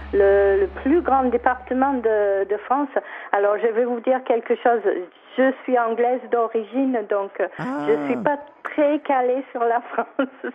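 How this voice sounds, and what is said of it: English accent speaking French. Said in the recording (French): “vous avez un accent anglais ... elle vient de switcher d'accent ... quelqu'un qui fait deux accents dans la même phrase”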